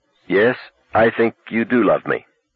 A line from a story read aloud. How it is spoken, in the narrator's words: she said slowly